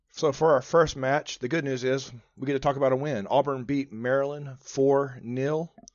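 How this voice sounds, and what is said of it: Raspy, strained voice. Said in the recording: “I might be a little bit more raspy. That's because we were down in Dallas this weekend, screaming our heads off. ... left Dallas with no voice ... We had no voice. We're trying to get our voice back.”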